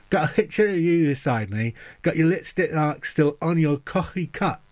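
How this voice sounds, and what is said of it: Mumbled speech with mouth wedged open. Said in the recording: “I shove this little bit of plastic in my mouth, wedges it open ... I'm mumbling my way through”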